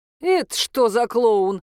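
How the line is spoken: Growled. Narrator (Russian): прорычал он

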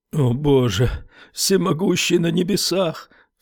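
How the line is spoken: Sobbing. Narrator (Russian): всхлипнул Стерджис

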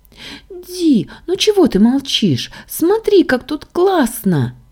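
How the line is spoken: Excited girl's squeal. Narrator (Russian): визжала Саша

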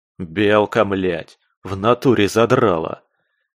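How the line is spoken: Irritated growl. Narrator (Russian): Раздраженно зарычал я

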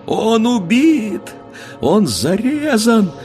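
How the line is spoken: Anguished screaming. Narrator (Russian): кричала она

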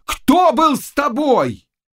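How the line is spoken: Thunderous shout. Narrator (Russian): крикнул громовым голосом

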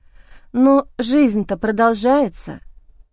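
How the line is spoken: Uncertain musing. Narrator (Russian): Как-то неуверенно рассуждаю

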